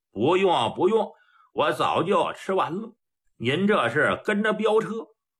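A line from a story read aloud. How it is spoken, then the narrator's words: Smiling. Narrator (Chinese): 崔掌柜的一笑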